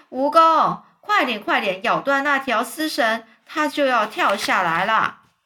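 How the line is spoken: Loud speaking. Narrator (Chinese): 詹姆斯大声说

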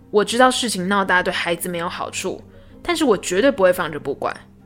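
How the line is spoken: Angry. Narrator (Chinese): 王老师愤怒地对校长说道

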